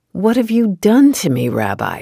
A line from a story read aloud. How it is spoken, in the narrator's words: he cried